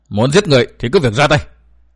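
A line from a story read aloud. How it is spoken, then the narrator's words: Fierce roar. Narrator (Vietnamese): Câu hồn ma nữ gầm giống dữ dằn nói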